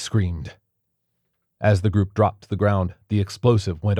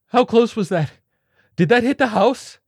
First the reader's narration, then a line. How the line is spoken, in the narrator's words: the flutist wailed